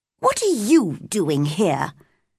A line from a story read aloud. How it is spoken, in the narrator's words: she asked crossly